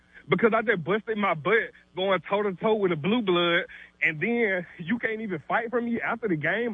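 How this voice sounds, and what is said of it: Out of breath, heated speech. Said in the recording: “out of breath ... is out of breath.”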